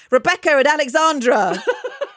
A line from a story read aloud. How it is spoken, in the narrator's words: my brother replied, at the top of his voice